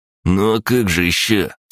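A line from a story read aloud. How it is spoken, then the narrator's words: Condescending snort. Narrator (Russian): с легкой снисходительностью хмыкнул Василь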